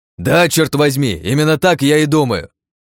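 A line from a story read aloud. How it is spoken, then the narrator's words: Barked. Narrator (Russian): Рявкнул я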